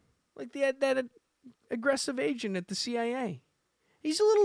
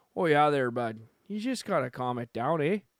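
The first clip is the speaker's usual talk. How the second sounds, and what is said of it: Attempted Canadian accent, sounds Minnesotan. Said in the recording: “Now he's sounding Minnesotan... Every time I do the accent, it's not very Canadian... It sounds more Irish.”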